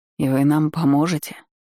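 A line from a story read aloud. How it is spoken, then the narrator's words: Uncertain old man asking. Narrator (Russian): неуверенно уточнил старик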